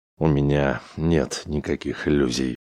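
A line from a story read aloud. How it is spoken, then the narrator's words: Mumble. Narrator (Russian): пробормотал Чаунс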